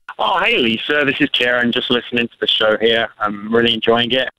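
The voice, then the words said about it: English accent. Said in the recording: “where is your accent from? ... Oh, it's from England.”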